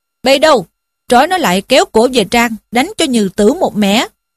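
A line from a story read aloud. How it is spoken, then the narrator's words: Shouted order. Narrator (Vietnamese): Anh chàng mặc áo vàng liền quát lên rằng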